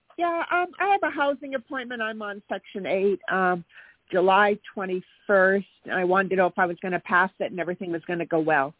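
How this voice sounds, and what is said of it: Hoarse, fading voice. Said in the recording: “kind of losing my voice.”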